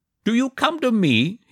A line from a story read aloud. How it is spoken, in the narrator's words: shouted